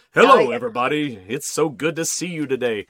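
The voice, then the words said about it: Exaggerated radio announcer voice. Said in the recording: “that radio voice.”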